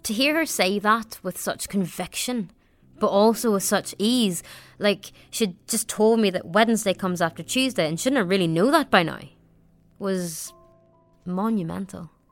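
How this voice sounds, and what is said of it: Regional accent with different vowels. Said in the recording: “there was absolutely nothing wrong with my accent ... So my vowels are a bit different ... They're not used to your accent”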